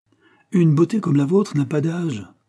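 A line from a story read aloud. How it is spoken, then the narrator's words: Exclaim. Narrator (French): s'écria-t-il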